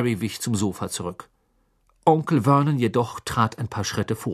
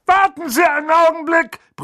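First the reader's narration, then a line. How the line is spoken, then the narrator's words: Bellowing toward fireplace. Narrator (German): brüllte er in Richtung Kamin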